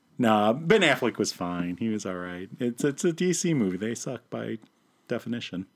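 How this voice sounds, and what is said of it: Usual voice. Nothing is said of it.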